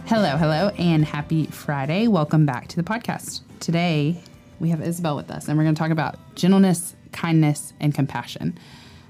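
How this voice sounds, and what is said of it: Congested voice from a cold. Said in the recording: “I have a little bit of a cold ... you sound like a third grader”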